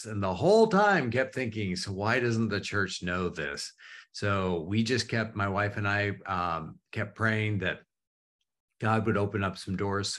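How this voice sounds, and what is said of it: Canadian accent. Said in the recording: “I am a Canadian. And so anybody who hears me say out and about and house, like all of that stuff, it usually shows up somehow ... accent”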